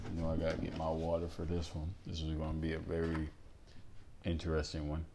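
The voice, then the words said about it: Calm, quiet, tired-sounding voice. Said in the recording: “my voice isn't really, like it always is, loud or nothing like that. ... It's pretty calm and chill and collective ... I am a little bit tired”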